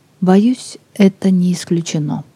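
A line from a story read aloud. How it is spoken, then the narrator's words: Quiet. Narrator (Russian): Грейсон тихо сказал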